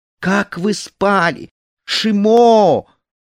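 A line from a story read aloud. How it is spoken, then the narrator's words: Shouting to everyone. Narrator (Russian): она закричала всем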